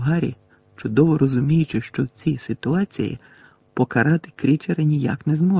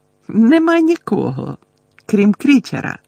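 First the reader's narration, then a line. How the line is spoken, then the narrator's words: Cheerful announcement. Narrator (Ukrainian): радісно повідомив ельф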